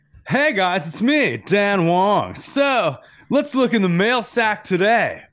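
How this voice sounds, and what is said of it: Imitates another person's voice. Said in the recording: “my best Dan Wong impression”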